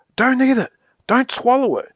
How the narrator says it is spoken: yelled Moonface suddenly

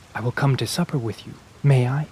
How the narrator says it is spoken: he added in a low voice so as to not disturb the Viscount

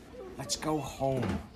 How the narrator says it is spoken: Jane whispered

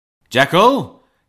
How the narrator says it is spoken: cried Utterson with a loud voice

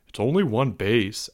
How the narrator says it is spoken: Albert muttered

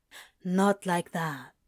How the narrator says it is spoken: Crowley tells him quietly

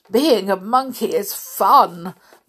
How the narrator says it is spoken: Mowgli exclaimed through a mouthful of banana

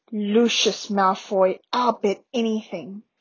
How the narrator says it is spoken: said Harry in a low, furious voice

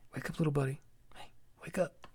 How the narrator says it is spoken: Dad said as he quietly

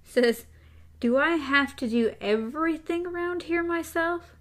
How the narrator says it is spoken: TikTok shouted, more exasperated than angry

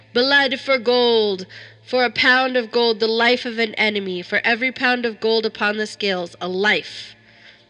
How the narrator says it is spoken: Then he cried again

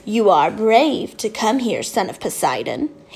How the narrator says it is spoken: he said in an oily voice

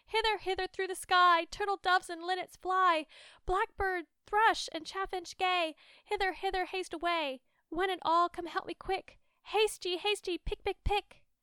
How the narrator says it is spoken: cried out as before

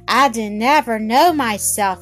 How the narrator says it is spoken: said sadly

